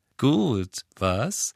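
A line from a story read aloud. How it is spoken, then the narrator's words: Cheerful. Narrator (German): sagte Luna fröhlich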